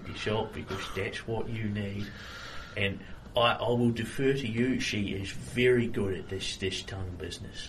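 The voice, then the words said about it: Put-on accent. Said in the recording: “I need you to continue this accent ... Every word I say from now on will be in this accent”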